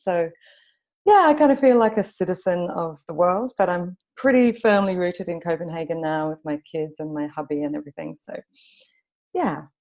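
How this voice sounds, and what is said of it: Mixed Australian accent. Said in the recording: “you can probably tell from my kind of messed up accent that I'm Australian. I've also lived in London for about 9 years.”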